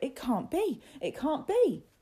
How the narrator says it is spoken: cried Rupert

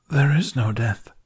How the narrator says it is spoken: the stranger wheezed

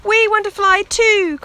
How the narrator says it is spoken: cried her brothers and sisters, clapping their paws

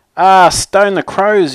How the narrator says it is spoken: yelled Little Nell

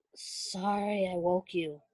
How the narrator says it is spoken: Styles mumbled, voice hoarse

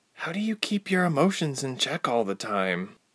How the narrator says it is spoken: she asked quietly

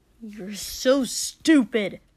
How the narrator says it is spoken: Kotsuki hissed

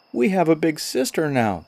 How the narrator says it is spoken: they cried

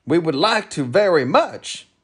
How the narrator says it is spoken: barked Tok

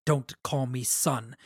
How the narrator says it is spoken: Adolin hissed

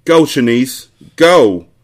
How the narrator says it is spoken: Trey shouted between garbled screams

